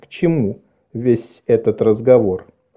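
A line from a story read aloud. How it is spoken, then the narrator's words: Forced calm, reasonable. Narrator (Russian): Она сказала, стараясь, чтобы ее голос прозвучал спокойно и рассудительно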